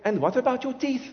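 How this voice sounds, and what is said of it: Imitates a foreign accent. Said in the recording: “That's the accent.”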